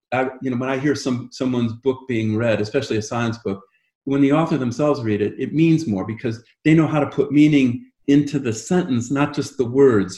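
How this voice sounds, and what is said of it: Soothing voice, slight English accent. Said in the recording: “you do have a soothing voice. Maybe you've picked up a little bit of the English accent, but you do have a nice soothing voice.”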